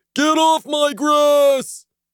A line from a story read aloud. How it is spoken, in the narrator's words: the neighbor yelled from a crack in one of the darkened windows